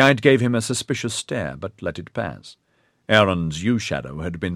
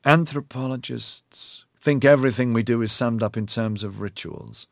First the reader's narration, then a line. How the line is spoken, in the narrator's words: Corilyn said smoothly